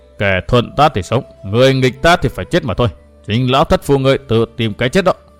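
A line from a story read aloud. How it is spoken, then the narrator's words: Laughing mutter. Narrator (Vietnamese): Huyết kiếm môn chủ rất hẳn tiếng cười, lẩm bẩm nói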